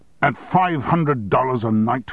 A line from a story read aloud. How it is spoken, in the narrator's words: shouted